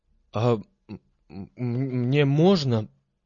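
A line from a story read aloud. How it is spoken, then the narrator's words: Stammering request. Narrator (Russian): запинаясь, попросил Сазонка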